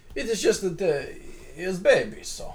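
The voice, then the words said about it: Put-on French accent drifting Russian. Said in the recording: “That fucking Titus That fucking accent, like, infected my French accent. ... Petros is now Russian.”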